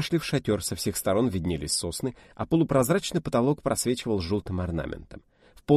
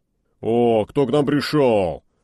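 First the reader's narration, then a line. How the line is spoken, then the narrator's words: Muffled deep bass. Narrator (Russian): глухо забасил Брежнев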